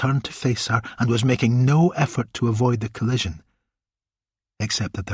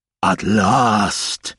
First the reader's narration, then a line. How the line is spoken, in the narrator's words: bellowed